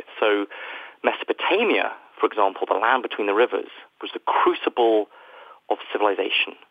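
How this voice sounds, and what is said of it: British accent. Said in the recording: “as you can probably tell from my accent, I am from ... the United Kingdom”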